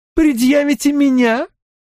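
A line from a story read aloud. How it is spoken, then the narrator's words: Joyless laugh. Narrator (Russian): Присцилла рассмеялась, хотя и не весело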